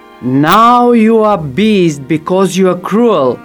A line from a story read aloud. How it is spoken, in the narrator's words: the enchantress shouted